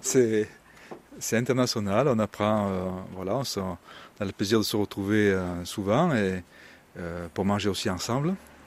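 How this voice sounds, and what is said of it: Southern French (Midi) accent. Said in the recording (French): “mon accent me trahit un petit peu. Je suis un peu plus du Midi ... Drôme Provençal, Vaucluse”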